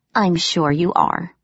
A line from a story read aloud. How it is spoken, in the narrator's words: I said dryly